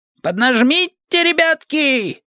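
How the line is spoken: Bishop shouting. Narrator (Russian): крикнул епископ Батта и Уэлса

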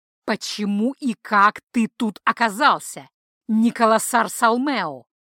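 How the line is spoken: Angry growl. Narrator (Russian): прорычал выведенный из себя Хальдор

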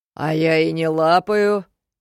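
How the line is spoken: Deep bass, close to ear. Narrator (Russian): пробасил Демиург у меня над ухом

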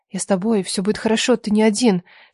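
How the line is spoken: Soft whisper. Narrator (Russian): шептала Леша тихо

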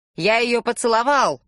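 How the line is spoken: Yelling. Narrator (Russian): орал Билли

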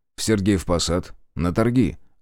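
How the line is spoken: Calm reply. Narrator (Russian): ответил спокойно

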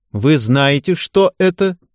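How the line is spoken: Loud question. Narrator (Russian): громко спросила Ярцева у девушек

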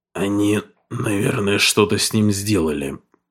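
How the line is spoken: Hoarse voice. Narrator (Russian): хрипло произнес Крейг

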